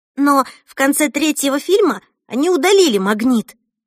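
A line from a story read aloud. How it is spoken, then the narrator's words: Excited. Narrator (Russian): взволнованно продолжала Эльса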